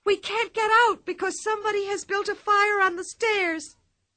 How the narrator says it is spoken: cried the older boy

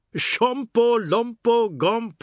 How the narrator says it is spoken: Oad said, roaring with laughter

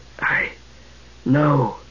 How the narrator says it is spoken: he whispered with a wry smile

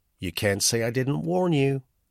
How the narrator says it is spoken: put in the girl quickly

